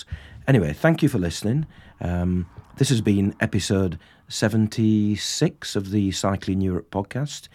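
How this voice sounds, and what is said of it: Croaky voice. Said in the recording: “I've got another cold. That's why I sound so croaky.”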